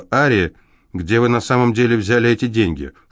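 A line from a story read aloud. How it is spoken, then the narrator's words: Sharper questioning tone. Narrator (Russian): Более резким тоном, чем раньше, она спросила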